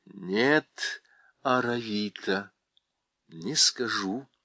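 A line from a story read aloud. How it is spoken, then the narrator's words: Plain. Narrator (Russian): ответила Уинни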